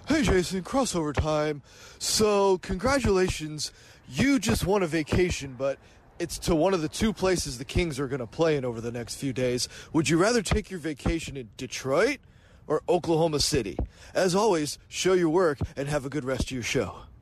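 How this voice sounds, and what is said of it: Impression of Carmichael Dave. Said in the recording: “great Carmichael Dave impersonation”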